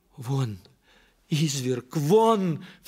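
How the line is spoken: Woman crying out. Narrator (Russian): вскрикнула арестантка

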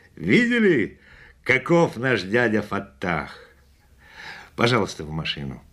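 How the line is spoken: Laughing. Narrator (Russian): Засмеявшись, он сказал

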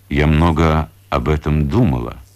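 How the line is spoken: Plain. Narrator (Russian): говорит Анастасия Ивановна

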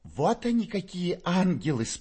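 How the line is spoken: Squeaky praising young woman. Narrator (Russian): пропищала в свою очередь в похвалу Фоме девица Перепелицына

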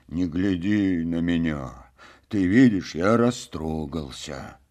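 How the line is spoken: Quiet. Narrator (Russian): тихо беседовал Копенкин

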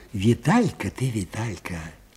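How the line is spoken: Quiet repetition. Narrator (Russian): тихо повторил Аниськин

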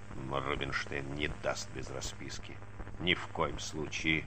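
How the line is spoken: Grumbling. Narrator (Russian): забурчал он

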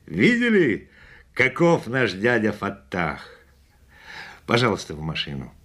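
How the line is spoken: Laughing. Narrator (Russian): Засмеявшись, он сказал

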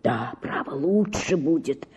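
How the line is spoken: Whispered. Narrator (Russian): шептал он мне

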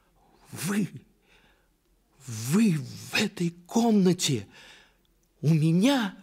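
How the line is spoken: Startled cry. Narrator (Russian): вскрикнула княжна, узнав вошедшего

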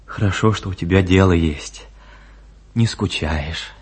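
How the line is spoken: Unusually tender voice. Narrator (Russian): Он ласково, голосом, какого она еще не слышала от него, сказал

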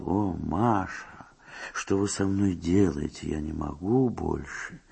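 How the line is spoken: Whisper. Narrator (Russian): майор действительно прошептал

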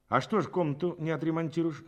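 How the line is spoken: Plain. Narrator (Russian): спросил Рябинин

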